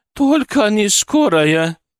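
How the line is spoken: Tearful pleading. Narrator (Russian): взмолилась, и в ее глазах блеснули слезы

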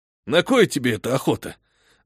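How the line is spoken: Sighing. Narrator (Russian): вздохнул шериф

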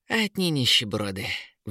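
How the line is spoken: Sighed. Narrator (Russian): вздохнула вепера

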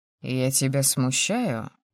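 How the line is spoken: Velvety inquiring tone. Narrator (Russian): Бархатным тоном поинтересовался провокатор

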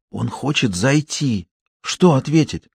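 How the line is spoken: Whisper. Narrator (Russian): Марина прошептала

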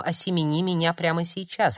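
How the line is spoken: Rough-voiced speaker. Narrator (Russian): от мужчины или от женщины с грубым голосом

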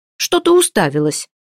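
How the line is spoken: Sharp shout. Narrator (Russian): прикрикнула она на служанку

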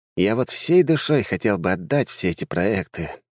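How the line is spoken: Sighing. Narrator (Russian): вздохнул Джованни

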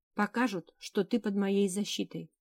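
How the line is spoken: Plain. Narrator (Russian): ответил конунг

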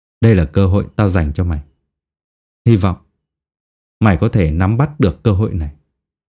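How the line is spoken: Dark, chilling voice. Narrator (Vietnamese): hắn nói bằng một giọng âm u lạnh lẽo

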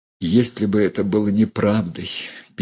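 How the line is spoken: Sad and bitter. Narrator (Russian): печально и горько сказала Дуня

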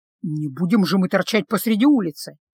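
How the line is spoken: Grumbling. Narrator (Russian): проворчал он

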